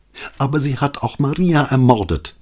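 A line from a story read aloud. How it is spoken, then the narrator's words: Angry retort, lawyer. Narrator (German): gab die Anwältin zornig zurück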